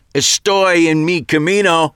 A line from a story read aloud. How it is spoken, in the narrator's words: Jake shouted back